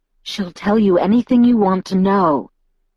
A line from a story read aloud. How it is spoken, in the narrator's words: Edward said through his teeth